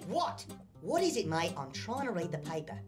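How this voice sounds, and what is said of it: Cartoon character's New Zealand accent. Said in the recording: “What happened to your voice, mate? ... I'm a Kiwi. I'm from freaking New Zealand. ... that explains the accent”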